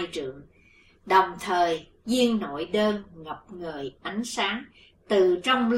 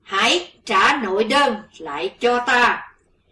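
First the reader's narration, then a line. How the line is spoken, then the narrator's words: Roaring shout. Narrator (Vietnamese): Sư diện quái ma dùng rống lên một tiếng, quát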